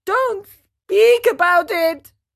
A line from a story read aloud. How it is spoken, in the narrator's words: wailed Pinocchio, still trembling with fright